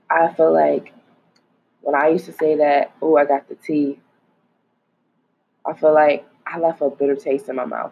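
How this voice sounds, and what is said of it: Weird-sounding early morning voice. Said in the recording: “my voice sounds all weird because it's 7 in the morning”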